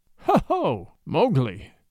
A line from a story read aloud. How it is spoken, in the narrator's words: said Bagheera angrily